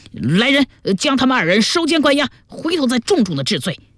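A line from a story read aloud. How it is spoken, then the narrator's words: Angry. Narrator (Chinese): 当即迁怒祖笑笑、姜文二名差役说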